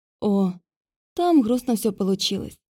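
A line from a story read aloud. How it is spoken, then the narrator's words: Sighing. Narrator (Russian): вздохнула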